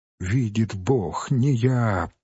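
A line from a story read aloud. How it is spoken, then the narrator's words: Sobbing, repeating. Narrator (Russian): повторял, всхлипывая, бедняк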